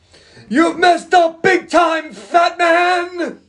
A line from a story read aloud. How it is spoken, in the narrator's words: he yells